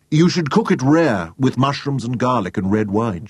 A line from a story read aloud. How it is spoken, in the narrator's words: she said